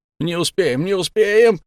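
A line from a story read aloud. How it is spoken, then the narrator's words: Shouting. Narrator (Russian): закричал Шайн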